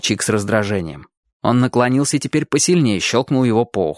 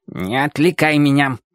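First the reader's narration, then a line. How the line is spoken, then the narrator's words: Puppy's growl. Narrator (Russian): прорычал щенок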